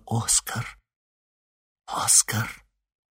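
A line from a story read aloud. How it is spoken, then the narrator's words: Whispered. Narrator (Russian): Элли прошептала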